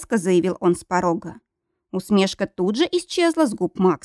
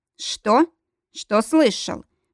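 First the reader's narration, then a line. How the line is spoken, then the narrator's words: Gloomy reply. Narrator (Russian): мрачно ответил Грег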